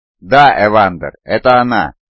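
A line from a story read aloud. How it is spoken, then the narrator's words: Plain. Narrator (Russian): ответила Сарашина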